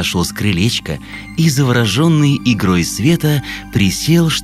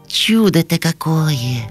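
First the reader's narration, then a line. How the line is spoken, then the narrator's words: Sighing. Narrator (Russian): вздохнул ежик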